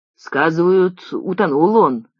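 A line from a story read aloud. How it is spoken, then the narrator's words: Grim, smiling. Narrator (Russian): отвечал мрачно улыбался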